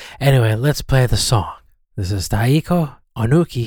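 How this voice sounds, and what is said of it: Usual voice. Nothing is said of it.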